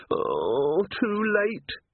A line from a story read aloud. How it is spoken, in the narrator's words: he moaned